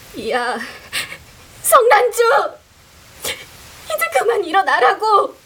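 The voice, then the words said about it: Half-sobbing shout. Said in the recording (Korean): “반쯤 울먹거리는 목소리로 ... 냅다 소리를 질렀다”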